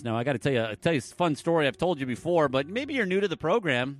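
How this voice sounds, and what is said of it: Michigan regional accent. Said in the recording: “Up in Michigan, yeah, that's where I'm from. That's where this weird accent comes from.”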